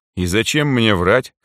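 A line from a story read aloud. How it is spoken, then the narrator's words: Snorting reply. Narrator (Russian): хмыкнул я в ответ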